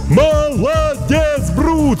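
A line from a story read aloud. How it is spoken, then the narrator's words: Crowd shouting. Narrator (Russian): снова закричали зрители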